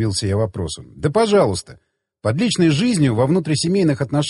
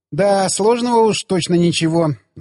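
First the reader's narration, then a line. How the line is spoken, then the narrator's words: Laughing. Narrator (Russian): засмеялась она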